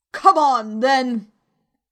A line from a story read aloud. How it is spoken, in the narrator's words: roared the queen